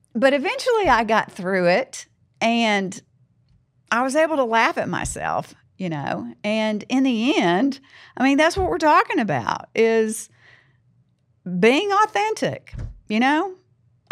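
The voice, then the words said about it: Southern American accent. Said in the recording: “my accent being Southern”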